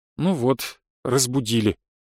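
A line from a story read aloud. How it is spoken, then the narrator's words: Sighing. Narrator (Russian): вздохнула госпожа Кланье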